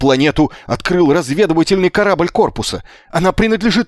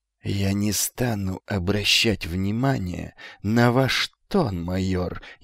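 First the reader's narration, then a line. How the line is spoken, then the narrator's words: Venomous hiss. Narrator (Russian): ядовито прошипел грач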